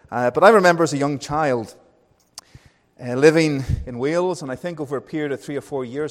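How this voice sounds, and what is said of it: Northern Irish accent. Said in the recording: “with my accent ... I went from being Northern Irish to Welsh to English and back to being Northern Irish”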